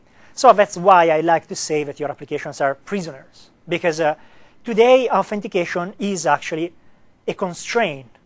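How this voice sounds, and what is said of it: Italian-accented English. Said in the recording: “my accent ... How many of you want me not to have an Italian accent? ... I wish sometimes to have something to turn it off, but I can't”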